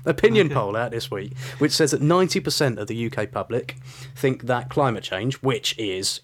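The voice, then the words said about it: Speaker's own regional accent. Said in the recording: “It's my accent.”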